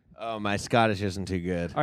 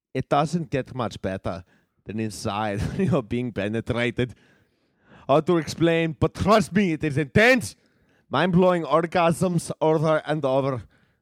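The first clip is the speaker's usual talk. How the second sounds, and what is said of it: Angry man, put-on German accent. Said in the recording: “a very angry man speaking English but with a German accent”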